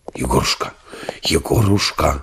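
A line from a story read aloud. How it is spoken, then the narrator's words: Deep two-voice whisper. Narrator (Russian): раздался густой шепот двух голосов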